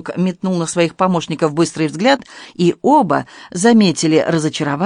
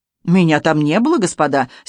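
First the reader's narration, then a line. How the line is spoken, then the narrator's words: Angry exclamation. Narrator (Russian): сердито воскликнул журналист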